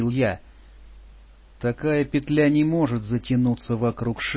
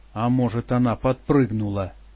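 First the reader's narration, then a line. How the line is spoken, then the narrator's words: Grumbled. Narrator (Russian): пробурчал Алан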